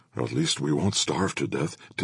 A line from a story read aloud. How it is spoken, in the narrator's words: Timson whispered